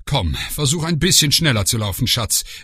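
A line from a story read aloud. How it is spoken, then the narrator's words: Called over shoulder. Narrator (German): rief über die Schulter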